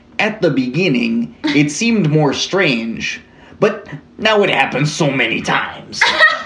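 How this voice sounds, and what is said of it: Poor Canadian accent, sounds like Chicago. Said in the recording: “Is that a good Canadian accent? ... Not at all. ... That was like Chicago.”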